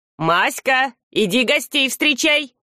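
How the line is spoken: Good-natured shout. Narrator (Russian): добродушно крикнул Сурок

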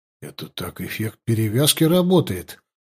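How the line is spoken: Surprised mutter. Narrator (Russian): удивленно пробормотал я

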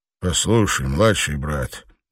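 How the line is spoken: Quiet. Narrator (Russian): негромко начал он

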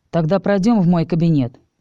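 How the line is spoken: Dry. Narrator (Russian): сухо сказал Даркин

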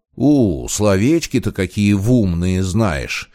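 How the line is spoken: Mocking reply. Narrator (Russian): Насмешливо отозвался Щербатый

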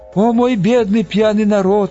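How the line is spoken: Moaning. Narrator (Russian): стонал Росшепер

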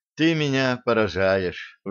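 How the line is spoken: Sighing. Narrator (Russian): вздохнула Габи

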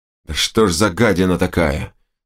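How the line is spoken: Growled with some horror. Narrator (Russian): с долей ужаса прорычал один из держащих меня бойцов

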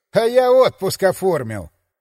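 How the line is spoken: Laughing. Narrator (Russian): рассмеялся заместитель начальника арсенала

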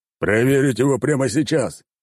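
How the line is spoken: Emperor barking command. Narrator (Russian): рявкнул император

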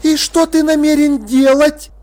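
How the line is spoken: Shouted. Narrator (Russian): крикнула Птрасси

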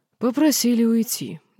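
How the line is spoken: Heavy sigh. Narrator (Russian): Динар тяжело вздохнул

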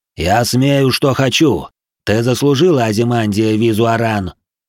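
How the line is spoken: Booming, unrestrained emotional reply. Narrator (Russian): Прогремел он ей в ответ, тоже не сдерживая эмоций

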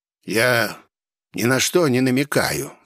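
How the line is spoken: Calm reply. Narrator (Russian): спокойно ответил судмед

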